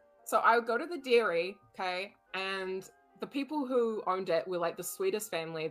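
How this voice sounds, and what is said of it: New Zealand accent. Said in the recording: “kiwi ... you made fun of my accent”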